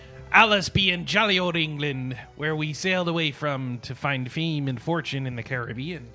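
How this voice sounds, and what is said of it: Put-on pirate voice. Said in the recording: “Talk Like a Pirate Day”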